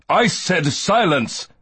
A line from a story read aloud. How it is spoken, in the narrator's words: Valaine snaps